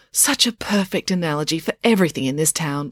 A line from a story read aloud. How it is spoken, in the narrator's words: Loretta said with a satisfied sigh